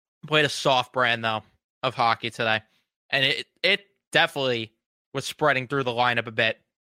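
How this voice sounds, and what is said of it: Strained, fading voice. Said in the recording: “Losing my voice there as I'm ranting.”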